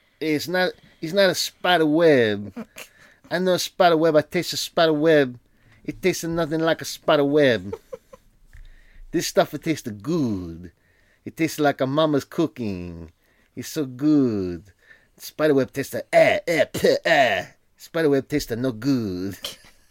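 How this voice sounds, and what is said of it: Put-on Italian accent. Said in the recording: “Is that your Italian accent?”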